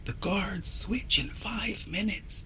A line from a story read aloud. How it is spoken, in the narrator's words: she whispers